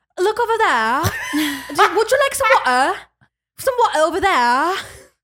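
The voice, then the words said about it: Weak attempt at British accent. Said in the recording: “The British. ... Listen, I appreciate the way it sounds. I definitely need to work on it.”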